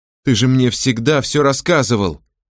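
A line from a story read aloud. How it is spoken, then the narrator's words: Shouted. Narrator (Russian): крикнула она отцу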